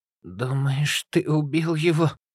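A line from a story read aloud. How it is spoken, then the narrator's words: Hoarse breathy voice after coughing. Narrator (Russian): сипло выдохнула Олеся, поборов кашель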